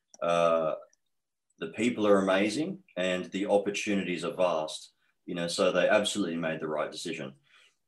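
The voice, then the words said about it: Strong Australian accent. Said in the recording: “the accent that I have is very strong towards being Australian.”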